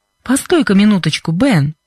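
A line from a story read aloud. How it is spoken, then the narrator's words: Laughing merrily. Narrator (Russian): сказала Вера, весело смеясь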